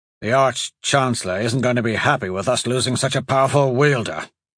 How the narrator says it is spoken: Hatch grunted as he took a deep breath

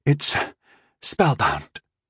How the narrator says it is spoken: Rondal said weakly

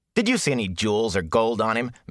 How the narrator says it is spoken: Matt scoffed

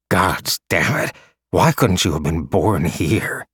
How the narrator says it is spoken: Cha muttered

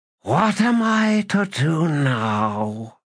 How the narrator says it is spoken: It uttered something between a sigh and a hissing snarl, and then asked

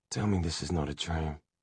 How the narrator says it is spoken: had whispered

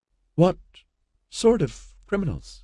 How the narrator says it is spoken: Tara asked shakily

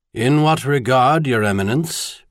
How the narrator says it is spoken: Bishop Gerald Adamson responded blandly

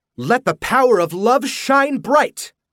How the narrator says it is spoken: Jody cried

